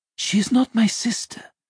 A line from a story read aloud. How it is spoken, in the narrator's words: Maria said sadly